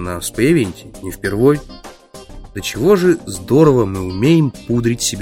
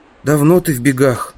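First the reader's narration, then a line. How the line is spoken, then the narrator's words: Young man, heavy sigh. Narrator (Russian): Худощавый темноволосый парень тяжко вздохнул и спросил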